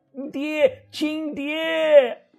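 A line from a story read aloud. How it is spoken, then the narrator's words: Shouting from the ground. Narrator (Chinese): 地上的崔才喊着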